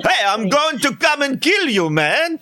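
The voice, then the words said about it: Poor Caribbean accent, sounds New York mobster. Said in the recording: “I tried to get the Caribbean accent ... Oh, that's not Caribbean ... you sounded like a New York Italian mobster”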